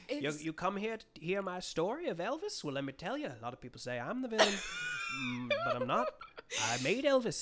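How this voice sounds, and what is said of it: Imitates another person's accented voice. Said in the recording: “he has, like, an accent that's literally not far from what we're doing.”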